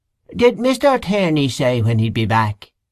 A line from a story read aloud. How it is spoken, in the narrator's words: he asked in a husky falsetto